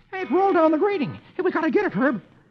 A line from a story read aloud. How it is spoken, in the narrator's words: Dagwood exclaims